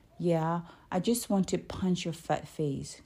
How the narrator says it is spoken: Corey snarled

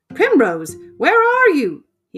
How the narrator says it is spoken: cried

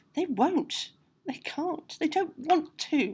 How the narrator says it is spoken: moaned the dark spectre

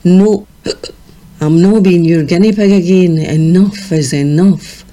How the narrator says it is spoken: slurred

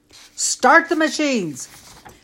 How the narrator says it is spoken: screamed Brian

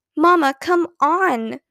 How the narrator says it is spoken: begged Ramona

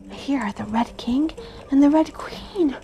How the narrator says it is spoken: Alice said in a whisper for fear of frightening them

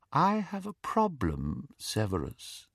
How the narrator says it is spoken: said Voldemort softly

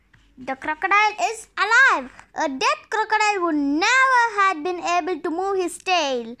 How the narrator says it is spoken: said the jackal in a loud voice

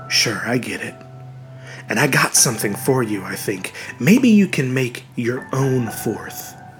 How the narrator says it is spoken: Uncle Al said quietly

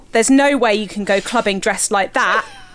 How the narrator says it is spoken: Gemma exclaimed

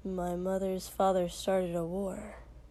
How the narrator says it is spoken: Shoto said quietly

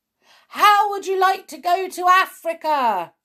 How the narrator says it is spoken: he shouted

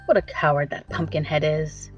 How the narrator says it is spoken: said the sawhorse scornfully

